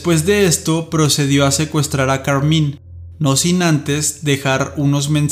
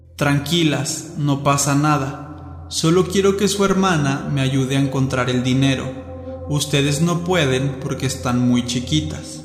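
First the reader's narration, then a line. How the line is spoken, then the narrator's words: Very calm, kind voice. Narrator (Spanish): Con una voz muy calmada e incluso amable, les dijo a las niñas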